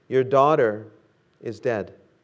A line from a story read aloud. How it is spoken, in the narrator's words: they said